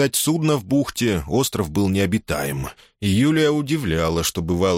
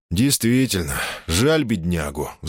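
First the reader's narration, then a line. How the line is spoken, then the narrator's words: Sighed. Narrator (Russian): вздохнул он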